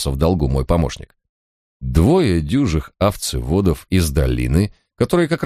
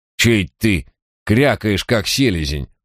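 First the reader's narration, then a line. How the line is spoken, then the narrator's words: Angry grumble. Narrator (Russian): проворчал торговец, злобно сверкнув глазами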